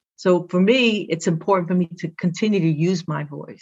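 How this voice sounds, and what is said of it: Brooklyn accent with Spanish influence. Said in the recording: “I gotta let them know that Brooklyn's in the house ... my accent is just okay ... my first language was Spanish ... I have difficulty sometimes speaking certain words”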